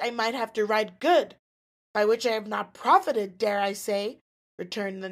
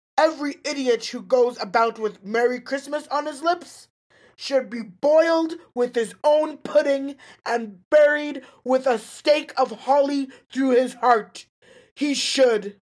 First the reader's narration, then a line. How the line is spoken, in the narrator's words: said Scrooge indignantly